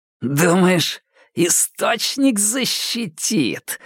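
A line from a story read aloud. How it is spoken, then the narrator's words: Snarling hiss. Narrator (Russian): скалясь прошипел Андрей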